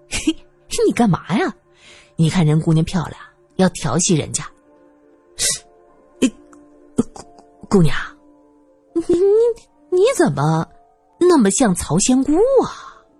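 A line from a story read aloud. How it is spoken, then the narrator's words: Laughing, teasing. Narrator (Chinese): 蒋小开笑了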